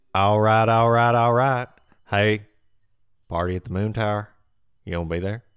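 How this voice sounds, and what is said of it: Imitates another person's voice. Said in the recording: “your accent impression of the week. Let's hear your McConaughey. ... It's pretty good. It's pretty good.”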